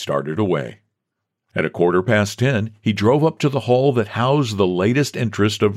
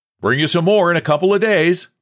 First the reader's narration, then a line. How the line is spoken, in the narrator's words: He merely shouted